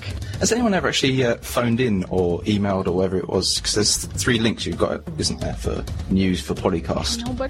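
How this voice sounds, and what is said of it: Strong English accent. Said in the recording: “my English accent is obviously too strong for you.”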